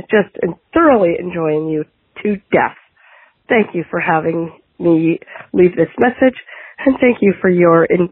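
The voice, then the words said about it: Canadian accent. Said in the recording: “that is a choice Canadian accent.”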